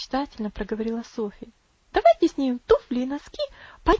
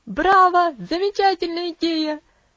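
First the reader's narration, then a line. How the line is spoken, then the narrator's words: Shouted. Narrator (Russian): закричал Хэролд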